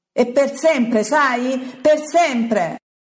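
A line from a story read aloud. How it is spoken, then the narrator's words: Furious shouting. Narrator (Italian): urla Pietro, paonazzo d'ira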